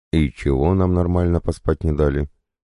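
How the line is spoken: Displeased grumble. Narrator (Russian): недовольно буркнул

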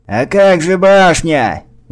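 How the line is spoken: Shout from the crowd. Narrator (Russian): выкрикнул кто-то из толпы

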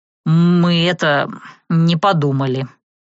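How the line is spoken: Mumbled. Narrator (Russian): промямлил Серж

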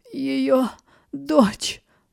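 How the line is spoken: Rasped. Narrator (Russian): прохрипела Элиан

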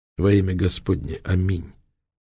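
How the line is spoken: Quiet. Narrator (Russian): негромко проговорил он

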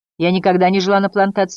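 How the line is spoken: Snapped. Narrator (Russian): огрызнулась Трикси

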